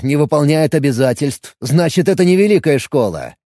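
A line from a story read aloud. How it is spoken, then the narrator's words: Mocking. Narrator (Russian): насмешливо бросил Алекс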